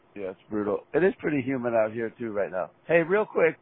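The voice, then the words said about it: Rough, gravelly hoarse voice. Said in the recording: “my voice sounds like uh, gravel road right now”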